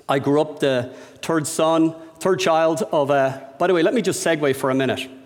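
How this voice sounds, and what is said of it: Irish accent, dropped H sounds. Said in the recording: “the Irish accent... the most noticeable thing is we drop the H when it follows a T”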